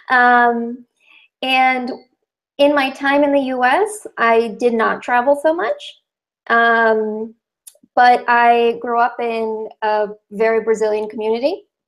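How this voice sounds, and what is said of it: Very American accent. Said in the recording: “hence the very American accent”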